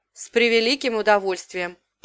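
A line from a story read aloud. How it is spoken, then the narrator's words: Muttered. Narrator (Russian): пробурчал Лив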